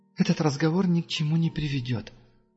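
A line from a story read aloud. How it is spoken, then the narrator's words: Sighing. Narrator (Russian): Моргана вздохнула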